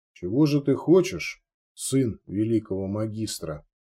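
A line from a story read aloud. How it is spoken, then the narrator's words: Calm inquiry. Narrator (Russian): Де Гир спокойно поинтересовался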